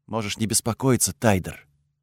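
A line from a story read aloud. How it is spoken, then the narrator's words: Quiet reply. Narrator (Russian): тихо ответила она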